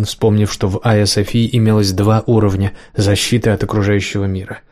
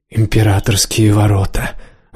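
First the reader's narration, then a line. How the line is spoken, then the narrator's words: Excited whisper. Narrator (Russian): восторженно прошептал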